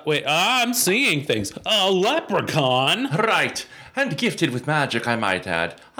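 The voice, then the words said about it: Put-on Irish accent. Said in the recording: “Can you do the Irish accent? ... Indeed, I can.”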